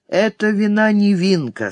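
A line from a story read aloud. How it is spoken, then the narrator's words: Tired. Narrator (Russian): сказал Ван Нек устало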